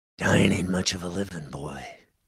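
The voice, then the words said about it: Clint Eastwood impression. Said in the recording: “in my best Clint Eastwood voice ... the Clint Eastwood imitation”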